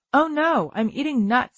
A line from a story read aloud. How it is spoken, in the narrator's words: I exclaimed through a mouthful